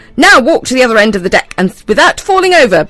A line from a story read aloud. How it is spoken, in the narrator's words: bellowed the pirate, who was the captain